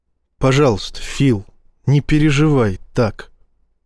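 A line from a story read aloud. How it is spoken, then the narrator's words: Very gentle plea. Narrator (Russian): очень мягко попросил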